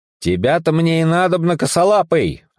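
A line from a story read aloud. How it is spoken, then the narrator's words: Joyful shout. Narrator (Russian): обрадованно крикнул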